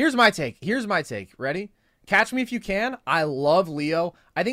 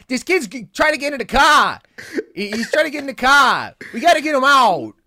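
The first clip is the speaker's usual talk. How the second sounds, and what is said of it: Exaggerated bad Boston accent. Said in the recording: “He does the worst Boston accent that I have ever heard.”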